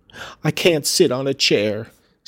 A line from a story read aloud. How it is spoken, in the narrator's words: sobbed the boy